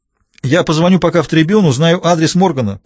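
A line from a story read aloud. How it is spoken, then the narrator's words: Calling after someone. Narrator (Russian): крикнул он ей вслед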